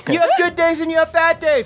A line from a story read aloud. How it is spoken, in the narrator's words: I scream